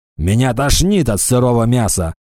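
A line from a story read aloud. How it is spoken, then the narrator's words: Grumbling orc. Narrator (Russian): заворчал орк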